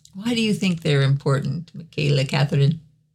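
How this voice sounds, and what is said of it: Mock therapist or teacher voice. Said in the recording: “No, it just sounded like a ... therapist. ... Like a teacher. ... You sounded like a therapist”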